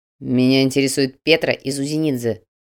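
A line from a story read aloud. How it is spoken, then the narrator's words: Growled. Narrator (Russian): прорычал Слановский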